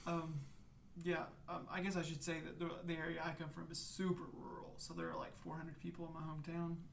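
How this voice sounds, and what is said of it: Rural hillbilly American accent. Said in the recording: “if my accent hasn't told you already, I'm definitely a hillbilly”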